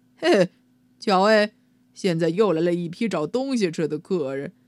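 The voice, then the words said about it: Loud duck character voice. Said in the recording (Chinese): “用相当大的声音说”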